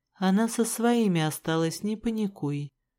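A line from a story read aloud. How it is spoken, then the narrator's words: Calm reply. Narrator (Russian): спокойно ответил Рыжик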